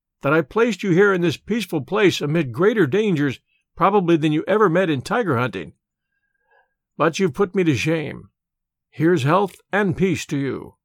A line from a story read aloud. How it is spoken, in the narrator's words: he laughed